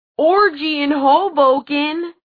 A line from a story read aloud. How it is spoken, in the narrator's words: Clary heard someone, probably Eric, yell